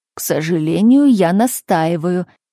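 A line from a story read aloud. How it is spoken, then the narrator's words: Gnome speaking through teeth. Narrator (Russian): процедил гном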